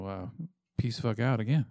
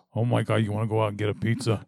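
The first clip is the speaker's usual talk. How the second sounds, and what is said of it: Badly done put-on accent. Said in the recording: “You want to throw an accent in there? ... Your bad accent? ... Fucking awful. ... Why is it so bad? ... It's terrible.”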